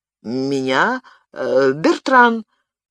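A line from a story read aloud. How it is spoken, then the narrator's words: Barely audible, terrified. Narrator (Russian): еле-еле выдавил из себя оцепеневший от страха Арно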